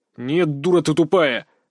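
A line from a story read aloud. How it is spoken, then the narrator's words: Sudden harsh bark. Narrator (Russian): вдруг рявкнул на нее странный парень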